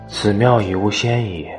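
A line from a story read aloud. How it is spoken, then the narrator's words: Sighing Taoist priest. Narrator (Chinese): 一道士叹曰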